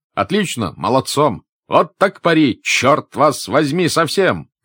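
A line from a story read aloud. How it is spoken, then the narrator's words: Many voices shouting. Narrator (Russian): кричали с разных сторон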